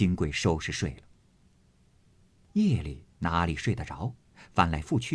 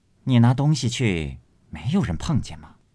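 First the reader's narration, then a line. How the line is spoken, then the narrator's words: Plain. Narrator (Chinese): 宝蟾道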